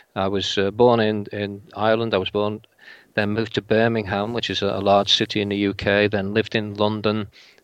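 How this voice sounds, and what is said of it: English accent, vaguely Liverpool. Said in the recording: “a very English accent ... my accent at the moment is vaguely Liverpool, vaguely Northwest England, with a little bit of other parts thrown in as well”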